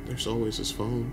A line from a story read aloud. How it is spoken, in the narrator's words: Liz said softly